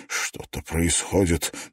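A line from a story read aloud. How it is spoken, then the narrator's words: Muttered. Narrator (Russian): пробормотал Клифф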